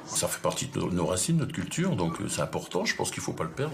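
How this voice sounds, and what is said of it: Strong Marseille southern French accent. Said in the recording (French): “un vrai euh, accent, parce que là, les gens prononcent différemment quelques mhm. sons ... Ça, c'est très marseillais ... du sud”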